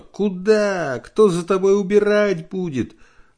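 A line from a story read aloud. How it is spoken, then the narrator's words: Shouted. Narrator (Russian): Нина всегда кричала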